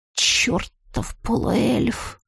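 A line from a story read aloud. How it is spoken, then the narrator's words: Through gritted teeth. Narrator (Russian): процедила вслух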